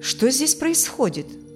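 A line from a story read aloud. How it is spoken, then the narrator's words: Stern. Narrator (Russian): строго сказал он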